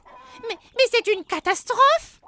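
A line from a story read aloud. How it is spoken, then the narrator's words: Goblin exclaiming. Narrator (French): s'exclame un autre lutin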